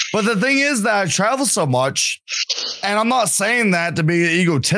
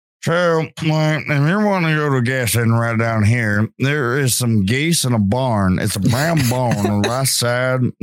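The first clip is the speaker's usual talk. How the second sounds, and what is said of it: Put-on Louisiana accent. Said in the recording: “Louisiana, I'm gonna fit in so well ... the more drinks I have, I'm going to be like talking to you like”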